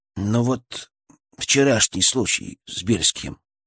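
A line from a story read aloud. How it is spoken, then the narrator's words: Uncertain. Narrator (Russian): неуверенно проговорил Фролов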